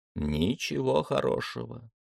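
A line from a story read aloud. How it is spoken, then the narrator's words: Calm reply. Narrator (Russian): спокойно ответил Гейтс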